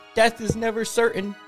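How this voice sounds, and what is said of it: High-pitched character voice. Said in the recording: “high voice”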